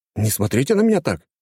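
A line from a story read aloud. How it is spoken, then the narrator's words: Exclaiming. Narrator (Russian): воскликнул я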